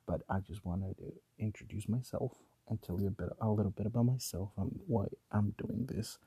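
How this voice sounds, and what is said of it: Hushed, quiet late-night voice. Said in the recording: “Recording this in the middle of the night ... I'm trying not to wake up everybody in the house. So that's why you will be listening to all this in this kind of voice.”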